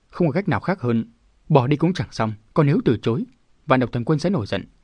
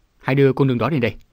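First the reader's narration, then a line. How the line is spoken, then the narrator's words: Shout. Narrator (Vietnamese): vạn độc thần quân quát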